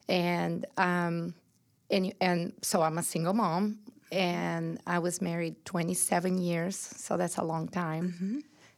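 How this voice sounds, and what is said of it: Brazilian accent. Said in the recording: “getting my accent out of the way and letting everybody know I was born and raised in Brazil”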